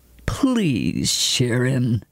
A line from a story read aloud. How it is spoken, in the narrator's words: growled Atten